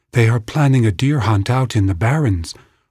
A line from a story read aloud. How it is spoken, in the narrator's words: Owasen replied in a tense voice